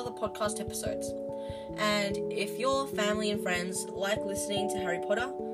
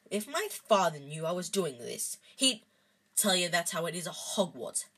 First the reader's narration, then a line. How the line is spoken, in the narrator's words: Hagrid growled